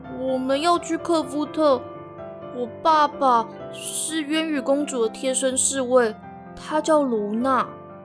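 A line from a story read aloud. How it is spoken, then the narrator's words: Quiet. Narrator (Chinese): 伟伟小声地说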